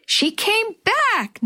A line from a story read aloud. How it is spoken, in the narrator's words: Natalie squealed